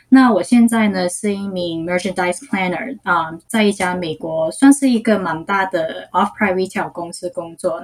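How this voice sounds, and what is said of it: Hong Kong accented Mandarin. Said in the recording (Chinese): “香港的口音其实听起来很好听诶”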